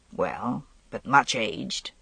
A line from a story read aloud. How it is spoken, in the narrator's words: he said quietly